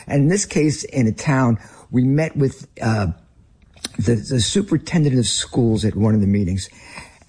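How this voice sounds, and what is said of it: Northern American accent. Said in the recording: “I am a Northerner with my accent.”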